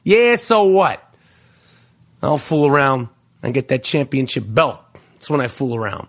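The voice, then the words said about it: Robert De Niro impression. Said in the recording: “I morphed into Robert De Niro there... my impression is impeccable... you thought I was playing a clip from the actual movie”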